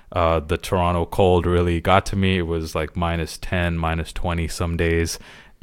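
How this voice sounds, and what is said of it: Congested, clogged-up sick voice. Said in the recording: “tell by my voice, I sound a little bit different, a little bit clogged up ... I ended up getting quite sick”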